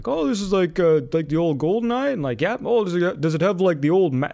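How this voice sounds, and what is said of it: Mimics a dim-witted customer's voice. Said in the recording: “This is my impression of a stupid customer.”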